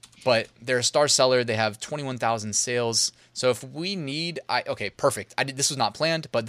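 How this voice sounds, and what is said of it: Usual voice. Nothing is said of it.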